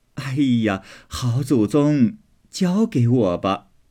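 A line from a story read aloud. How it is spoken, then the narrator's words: Laughing. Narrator (Chinese): 凤姐儿也笑说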